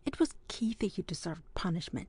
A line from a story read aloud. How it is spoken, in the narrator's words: he murmured, but not very steadily